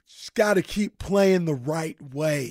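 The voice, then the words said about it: Impression of Mike Brown. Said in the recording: “It's Draymond doing a Mike Brown impersonation.”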